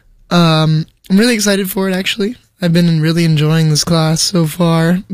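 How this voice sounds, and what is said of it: Worn-out, strained voice. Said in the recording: “My voice is a little bit shot right now, so, for some reason it hasn't really recovered”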